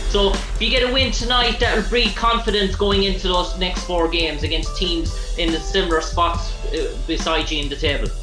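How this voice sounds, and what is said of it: Irish accent. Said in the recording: “I like your accent. ... I want to learn how to talk like that. ... the Irish accent of”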